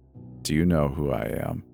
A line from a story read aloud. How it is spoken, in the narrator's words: He asked in a deep, almost robotic voice